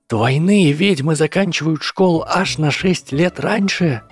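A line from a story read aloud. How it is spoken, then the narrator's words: Exclamation. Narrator (Russian): воскликнула Трейси Дэвис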